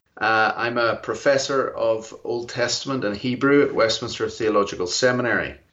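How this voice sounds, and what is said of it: Northern Irish Belfast accent. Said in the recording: “as you, you, can hear from my accent, I'm not from around here ... I'm from Belfast, Northern Ireland originally”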